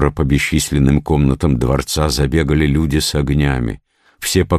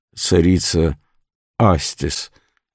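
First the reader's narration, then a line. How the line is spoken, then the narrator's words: Dull, terrified, teeth chattering. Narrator (Russian): Весь трепеща и щелкая зубами, с глазами побелевшими от страха, молодой воин уронил глухо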